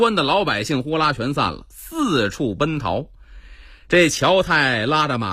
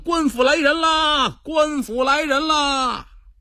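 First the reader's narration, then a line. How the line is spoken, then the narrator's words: Distant shout. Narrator (Chinese): 远处一阵跑步声，有人大喊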